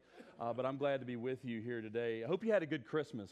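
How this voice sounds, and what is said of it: Southern US accent. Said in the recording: “I'm trying to hide my southern accent.”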